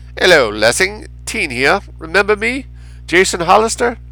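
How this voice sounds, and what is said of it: Raffish British accent. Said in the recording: “In a raffish British accent, it said”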